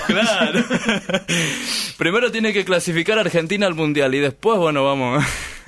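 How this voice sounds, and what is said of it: Announcer-like broadcaster voice. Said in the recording (Spanish): “Parecés locutor? ... tenés voz de locutor.”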